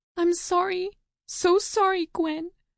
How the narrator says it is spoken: Gracie interrupts in turn, gasping between sobs

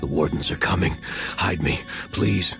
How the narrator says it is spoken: Morgan, half his face covered in blood, gasped

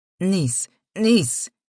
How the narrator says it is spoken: shouted against my mouth

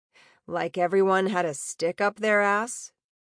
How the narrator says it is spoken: Ember chuckled wryly

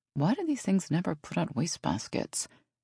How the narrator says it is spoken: She mumbled

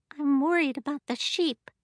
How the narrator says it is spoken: mumbled Abby

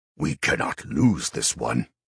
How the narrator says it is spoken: growled Rish Leo, one of the three Ghasts

